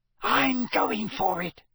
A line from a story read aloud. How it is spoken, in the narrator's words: Fred Weasley hissed down the table, his face lit with enthusiasm at the prospect of such glory and riches